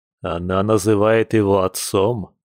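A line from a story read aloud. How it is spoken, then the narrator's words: Grim question. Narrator (Russian): мрачно уточнил Филат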